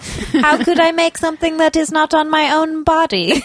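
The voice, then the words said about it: Evil-sounding lying voice. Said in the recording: “What an evil voice ... that voice in that context ... that's your lying voice”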